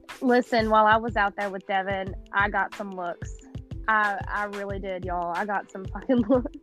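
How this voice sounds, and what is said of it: Kentucky accent. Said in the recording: “Y'all hear that in her accent? That's the Kentucky.”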